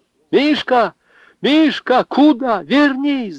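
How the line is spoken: Shouting. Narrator (Russian): закричала Анна

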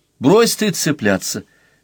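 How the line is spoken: Exclamation. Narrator (Russian): воскликнула аспирантка

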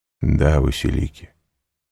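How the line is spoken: Calm. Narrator (Russian): спокойно ответил Селим

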